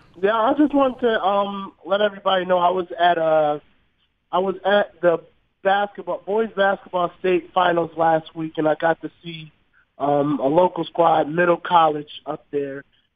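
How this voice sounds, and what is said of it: Sick-sounding voice. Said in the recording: “I'm actually under the weather a little bit. I'm getting pretty sick over here... I could hear it in your voice.”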